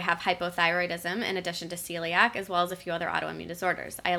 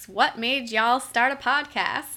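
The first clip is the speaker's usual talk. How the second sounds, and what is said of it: Put-on Texas accent. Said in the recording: “That's my best Texas accent”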